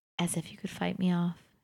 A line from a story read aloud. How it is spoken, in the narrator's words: says gently